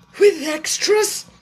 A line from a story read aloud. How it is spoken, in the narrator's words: asked the Mock Turtle a little anxiously